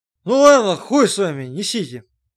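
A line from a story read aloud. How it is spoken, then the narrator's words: Heavy sigh, pronouncing. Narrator (Russian): Макар тяжело вздохнул и изрек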